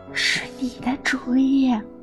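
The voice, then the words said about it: Quiet muttering. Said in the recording (Chinese): “小声嘟囔”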